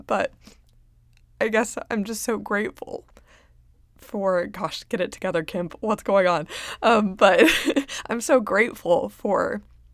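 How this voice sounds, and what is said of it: Emotional, choked-up voice. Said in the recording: “I don't know why I'm getting choked up”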